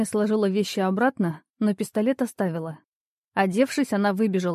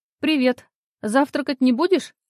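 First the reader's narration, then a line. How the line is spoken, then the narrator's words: Shout. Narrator (Russian): крикнула ей Лиза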